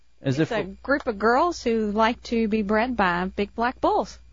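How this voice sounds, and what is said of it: Kentucky Southern accent. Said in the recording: “I'm detecting a little bit of an accent there ... I am from Kentucky ... she has that accent”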